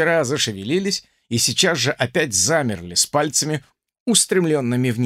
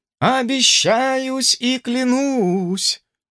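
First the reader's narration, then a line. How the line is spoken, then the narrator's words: Priest chanting. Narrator (Russian): произнес нараспев священник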